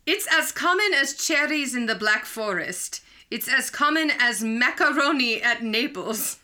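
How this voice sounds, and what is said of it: Weak put-on German accent. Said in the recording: “I am sight reading in a German dialect, neither of which I excel at.”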